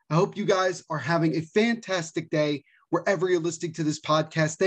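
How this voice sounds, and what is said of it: Low, downbeat tone of voice. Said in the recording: “my tone of voice is not necessarily in a good mood”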